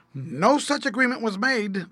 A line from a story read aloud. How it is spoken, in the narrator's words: declared Fred sharply